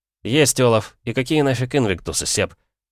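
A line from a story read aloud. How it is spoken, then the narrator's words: Snort. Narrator (Russian): хмыкнул я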